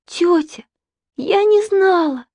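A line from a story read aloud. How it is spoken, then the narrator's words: Pleading. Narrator (Russian): взмолилась Саша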